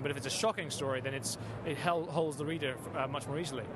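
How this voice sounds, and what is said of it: British English accent. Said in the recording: “UK. ... that's where the accent I'm hearing from”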